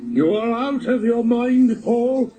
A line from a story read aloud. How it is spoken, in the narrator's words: he shouted